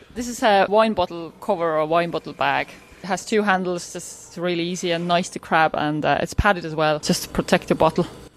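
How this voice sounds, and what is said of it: Half Estonian, half Irish accent. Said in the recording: “You have a kind of a half Estonian, half Irish accent.”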